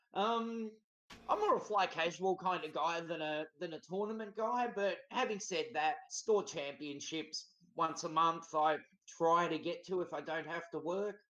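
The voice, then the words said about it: Australian accent. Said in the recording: “He's from Australia ... Can't you tell from his accent?”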